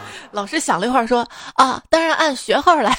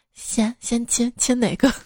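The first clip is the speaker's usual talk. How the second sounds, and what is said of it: Quiet, hushed voice. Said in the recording (Chinese): “小声问”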